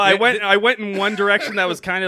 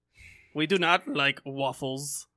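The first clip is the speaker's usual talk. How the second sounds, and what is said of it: Vague put-on German-ish accent. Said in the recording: “I'm not sure what accent that was. I don't think it was Belgian. ... kind of like a German twink ... I abandoned it halfway through the impression.”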